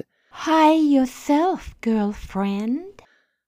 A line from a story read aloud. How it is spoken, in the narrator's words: In a sultry voice she said